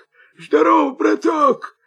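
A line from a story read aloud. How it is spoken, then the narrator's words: Wolf's hoarse voice. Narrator (Russian): хрипит волк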